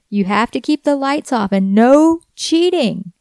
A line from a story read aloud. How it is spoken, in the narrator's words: Samantha yelled